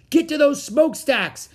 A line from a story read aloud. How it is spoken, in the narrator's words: cried Jack